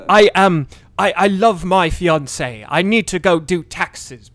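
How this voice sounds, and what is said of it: Bad put-on British accent. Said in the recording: “he does this British accent that... Holy guacamole, it's bad. It's so bad.”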